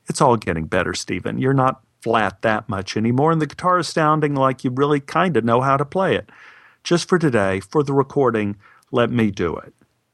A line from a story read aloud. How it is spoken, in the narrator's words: laughed and said